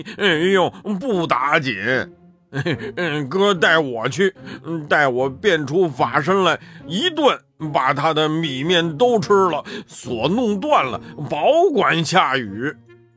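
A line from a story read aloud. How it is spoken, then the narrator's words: Laughing. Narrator (Chinese): 八戒笑道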